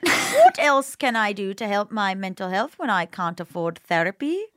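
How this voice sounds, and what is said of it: Bad old-fashioned British accent. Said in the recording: “read it in a British accent ... it in a very old-fashioned, very bad accent”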